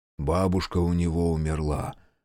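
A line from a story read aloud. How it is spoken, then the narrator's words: Whisper. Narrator (Russian): прошептал Ямана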